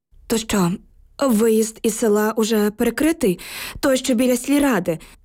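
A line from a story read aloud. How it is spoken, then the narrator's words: Trembling question. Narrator (Ukrainian): запитала я тремтячим голосом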